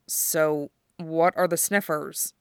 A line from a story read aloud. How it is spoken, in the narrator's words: He asked, still in a low voice, in case he'd misunderstood Duo's nuances